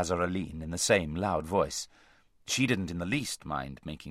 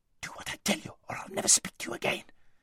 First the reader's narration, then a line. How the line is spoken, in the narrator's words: hissed Aravis